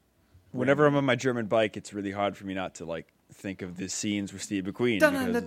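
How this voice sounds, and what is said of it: New England accent. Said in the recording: “your New England accent? Because it's really coming through right now ... Because it's really coming through.”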